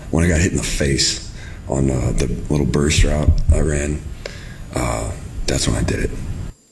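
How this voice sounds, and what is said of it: Deep, hoarse voice like having a cold. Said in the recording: “his throat made him sound like a manly man ... That's like a cold voice, like the voice you have when you get a cold”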